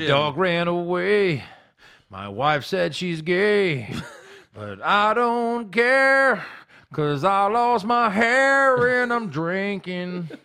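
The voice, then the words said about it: Mock country music singing voice. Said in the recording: “It's a pretty good impression of shitty country music”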